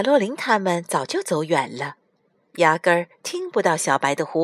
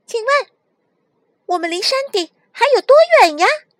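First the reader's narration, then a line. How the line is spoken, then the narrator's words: Loud greeting. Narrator (Chinese): 卡洛琳大声向牧童打招呼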